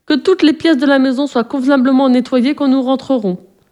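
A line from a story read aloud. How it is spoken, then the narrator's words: Shouted from the doorway. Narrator (French): cria Francisca depuis la porte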